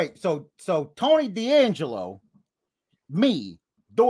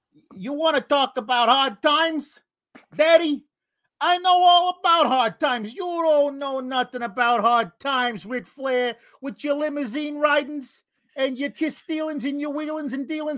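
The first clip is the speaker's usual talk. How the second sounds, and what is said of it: Tony D'Angelo impression, hard times promo. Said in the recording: “Tony D'Angelo doing the hard times promo ... do an impression”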